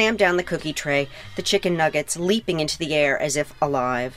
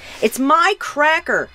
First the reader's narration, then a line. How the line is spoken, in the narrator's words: Miles yells